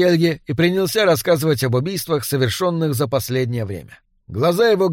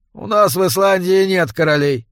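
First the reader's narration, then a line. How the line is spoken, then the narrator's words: Grumbling. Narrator (Russian): проворчал я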